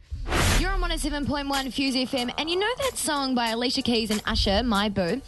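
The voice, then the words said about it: Bad accent on radio. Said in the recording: “I had a bad accent.”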